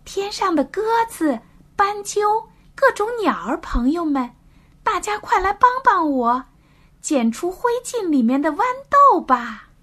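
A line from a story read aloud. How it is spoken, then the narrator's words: Loud shout skyward. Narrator (Chinese): 朝着天空大声的喊道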